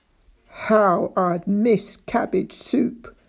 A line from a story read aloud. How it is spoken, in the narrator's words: said Daisy in a cold, hard voice